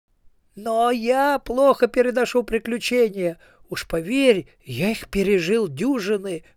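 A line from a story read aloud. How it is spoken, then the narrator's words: Wailing. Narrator (Russian): взвыл Ринсвинд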